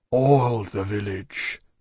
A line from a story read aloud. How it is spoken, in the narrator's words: pursued, in a low voice